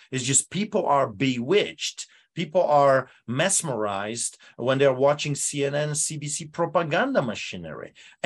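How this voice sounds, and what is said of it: Polish accent. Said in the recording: “listen to my accent. I grew up in a country like this ... behind the Iron Curtain, Poland”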